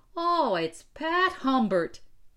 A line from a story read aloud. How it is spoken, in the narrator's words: he shouted